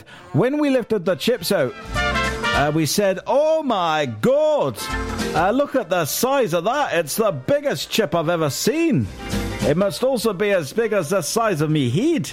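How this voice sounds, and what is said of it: Terrible put-on Scottish accent. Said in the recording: “That's a terrible, terrible Scottish accent. I do apologise.”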